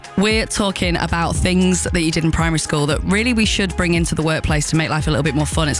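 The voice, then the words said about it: Husky, worn-out voice. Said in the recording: “Your voice is still finished... my voice has got a bit of a husky... A bit husky... A little bit husky”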